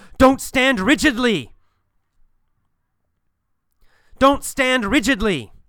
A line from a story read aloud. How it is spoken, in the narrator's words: He yells